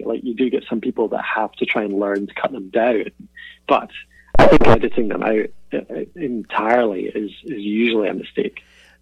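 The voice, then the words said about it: Mild Scottish accent. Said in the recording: “your accent ... I've certainly learned to moderate my accent a little bit ... I don't have a strong Scottish accent by any means”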